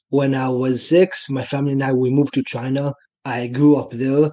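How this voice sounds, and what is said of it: Israeli accent. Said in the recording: “as you can probably hear from my accent, I'm from Israel”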